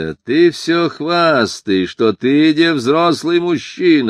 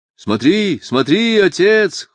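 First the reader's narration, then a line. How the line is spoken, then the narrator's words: Shouted in chorus. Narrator (Russian): хором закричали сыновья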